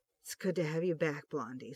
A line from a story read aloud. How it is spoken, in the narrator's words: Starsky whispered, emotion choking his voice